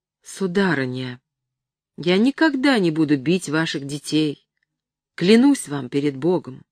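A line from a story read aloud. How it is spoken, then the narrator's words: Unnatural tone. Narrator (Russian): сказал каким-то неестественным тоном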